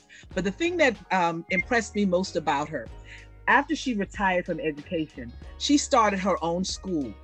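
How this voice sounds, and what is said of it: Bahamian accent. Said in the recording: “I'm from the Bahamas, Nassau, Bahamas. My accent may give me away”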